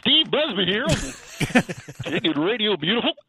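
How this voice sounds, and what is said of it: Cartoon character voice. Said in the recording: “Cartoon voice”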